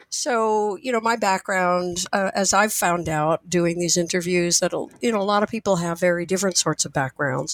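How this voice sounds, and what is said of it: Husky, raspy voice. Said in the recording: “I will probably be doing my best Scarlett Johansson imitation today because of a cold”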